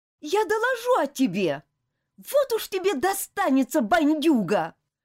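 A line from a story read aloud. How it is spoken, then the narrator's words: Angry outburst. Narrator (Russian): Гневно выкрикнула Элизабет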